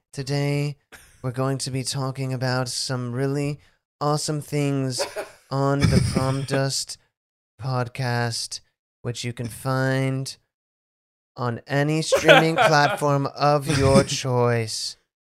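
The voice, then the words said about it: Calm NPR radio news voice. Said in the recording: “can do the best like NPR news voice ever”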